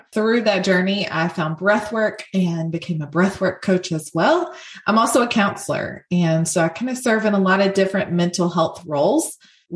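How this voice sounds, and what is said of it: Southern US accent. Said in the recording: “I live in the South. You guys probably can hear my accent.”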